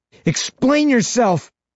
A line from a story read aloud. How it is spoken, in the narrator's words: I shout with a fury I didn't even know I had in me